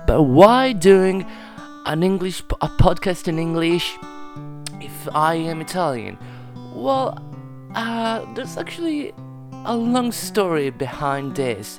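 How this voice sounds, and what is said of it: Italian accent in English. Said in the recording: “as you can tell from my accent, I am not English, I'm not an English native speaker, I am Italian.”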